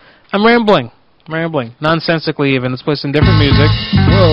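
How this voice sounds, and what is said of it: Usual voice. Nothing is said of it.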